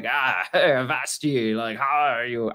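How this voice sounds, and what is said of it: Mock Thor voice, pirate-like. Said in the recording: “That's not a good Thor accent, ... I think it was a pirate. ... That was a good Thor.”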